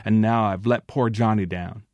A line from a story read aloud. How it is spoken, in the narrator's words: she accused herself bitterly